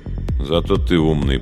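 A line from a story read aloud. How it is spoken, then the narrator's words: Muttering. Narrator (Russian): пробормотал кто-то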